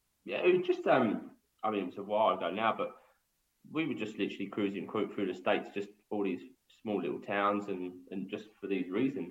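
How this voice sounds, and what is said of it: English accent. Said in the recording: “me having my English accent”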